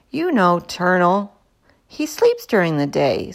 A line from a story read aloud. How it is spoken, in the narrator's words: said Heidi